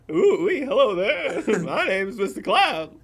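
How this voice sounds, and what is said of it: Silly cartoonish character voice. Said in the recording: “cloud voice isn't normal?”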